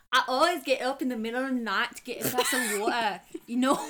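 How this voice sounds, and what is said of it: Attempted Scottish accent. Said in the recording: “I tried Scottish, so it didn't work.”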